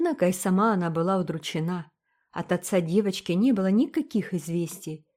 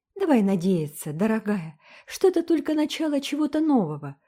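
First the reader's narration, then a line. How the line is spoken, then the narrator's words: Brisk cheerful objection. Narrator (Russian): бодро возразила Энн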